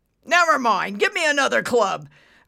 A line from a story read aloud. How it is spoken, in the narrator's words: yelled, shaking his hands